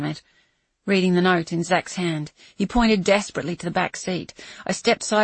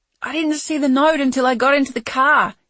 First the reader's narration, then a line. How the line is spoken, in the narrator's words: he screamed